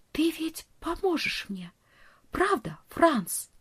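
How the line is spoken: Whispered. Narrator (Russian): прошептала

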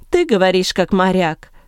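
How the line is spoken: Plain. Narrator (Russian): сказал Савл

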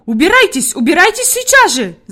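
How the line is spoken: Woman shouting. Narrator (Russian): закричала Фрейлин Наттермайер

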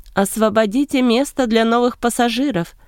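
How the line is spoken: Shouting captain. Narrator (Russian): прокричал капитан

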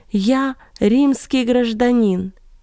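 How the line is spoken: Nearly shouted. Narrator (Russian): перед тем, как потерять сознание, он чуть не закричал на латыни

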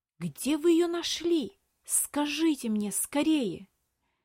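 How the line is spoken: Boy's strained whisper. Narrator (Russian): С трудом сдерживая, прошептал мальчик

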